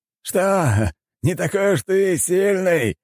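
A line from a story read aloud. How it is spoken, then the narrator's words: Mocking laughter, group. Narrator (Russian): смеялись архимаги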